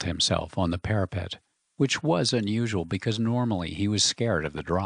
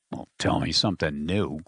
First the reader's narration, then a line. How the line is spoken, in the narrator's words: growled George